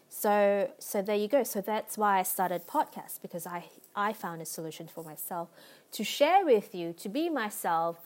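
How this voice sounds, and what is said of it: Speaker with a noticeable accent. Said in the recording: “I know I have an accent. I know sometimes I pronounce things that could be compromised a little bit”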